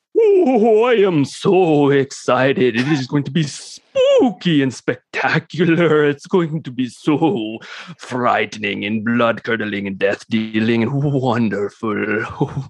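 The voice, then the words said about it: Put-on Transylvanian accent. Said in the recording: “That was my Transylvanian accent. ... Northern Transylvanian ... it's a different dialect.”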